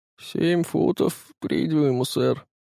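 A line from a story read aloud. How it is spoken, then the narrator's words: Quiet. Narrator (Russian): плотник … тихо сказал ему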